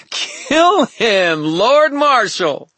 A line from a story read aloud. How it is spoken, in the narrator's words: Aurora let out a wild laugh and said